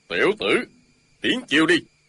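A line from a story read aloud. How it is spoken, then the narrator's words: Shout. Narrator (Vietnamese): Ân Thiên Chính quát lên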